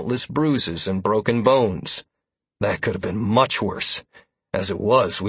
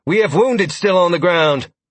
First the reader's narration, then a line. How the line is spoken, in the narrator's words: she called out to the surviving recruits